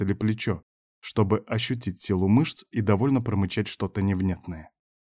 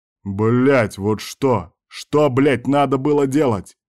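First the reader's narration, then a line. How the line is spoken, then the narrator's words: Yelling for all to hear. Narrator (Russian): орал Берг на всю округу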